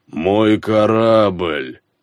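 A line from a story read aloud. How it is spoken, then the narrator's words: Groan. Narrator (Russian): простонал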